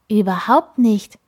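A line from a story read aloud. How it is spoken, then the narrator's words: Calling out. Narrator (German): rief der Schied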